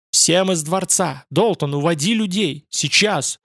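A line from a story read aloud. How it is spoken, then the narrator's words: Terrible shout. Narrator (Russian): Он закричал страшным голосом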